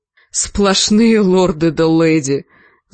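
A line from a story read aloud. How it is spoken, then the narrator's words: Groaning. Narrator (Russian): застонал позади Джендри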